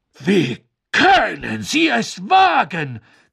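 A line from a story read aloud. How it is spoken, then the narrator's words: Shriek. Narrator (German): kreischte Madame Maxime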